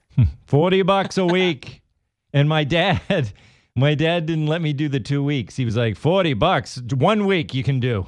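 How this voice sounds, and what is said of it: Massachusetts accent. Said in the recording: “you just got a Massachusetts accent there. Dollars.”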